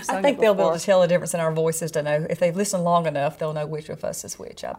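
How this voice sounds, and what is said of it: Slight Southern twang. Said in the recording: “Yours is just a little more Southern. ... twang. But not much. Not much.”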